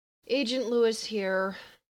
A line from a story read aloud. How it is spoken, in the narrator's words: fat with sleep and slurred